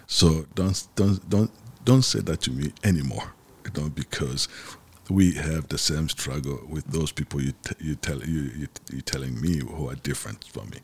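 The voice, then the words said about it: Congolese accent in English. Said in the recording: “you from Congo... if I didn't open my mouth and you didn't hear my accent”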